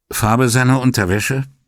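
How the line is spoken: Dry question. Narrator (German): fragte Brunetti trocken

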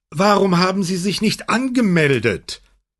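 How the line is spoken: Calling from a distance. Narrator (German): rief Maurizio, als er noch etwa 10 Meter von ihnen entfernt war

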